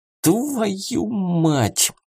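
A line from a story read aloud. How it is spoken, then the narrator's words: Hissing in pain. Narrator (Russian): запрыгал на одной ноге, прошипел Клим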